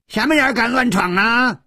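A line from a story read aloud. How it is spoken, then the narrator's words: Roared angrily. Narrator (Chinese): 吼声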